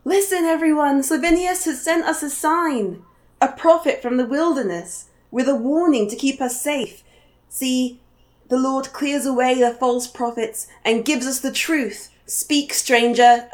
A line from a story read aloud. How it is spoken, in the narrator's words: Morrill is yelling